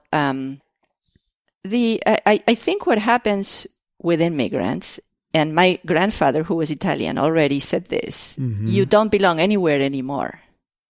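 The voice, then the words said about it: Non-native English accent. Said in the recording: “I have an accent because I didn't learn to speak English as a native speaker here.”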